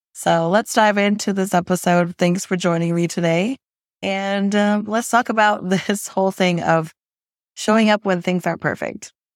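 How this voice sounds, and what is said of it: Raspy voice. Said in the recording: “a voice that is really raspy”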